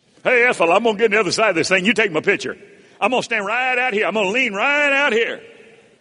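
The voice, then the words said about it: Put-on Southern American accent. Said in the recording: “pardon the southern accent”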